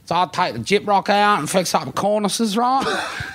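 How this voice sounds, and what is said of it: Put-on Australian tradesman accent. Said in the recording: “Accent. ... I forgot tradie accent.”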